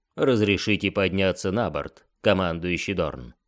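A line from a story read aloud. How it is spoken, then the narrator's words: Mock-formal. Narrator (Russian): Изображая, что строго следует протоколу, он произнес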